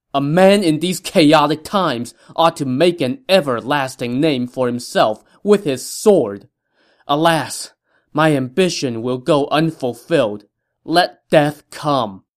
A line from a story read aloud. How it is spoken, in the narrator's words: Taishici shouted out loud